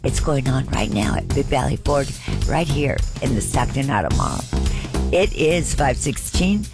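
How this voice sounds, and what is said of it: Dry, strained voice. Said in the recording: “I think I'm going to go take a throat lozenge. You know, all this dry air. My voice is not doing very well.”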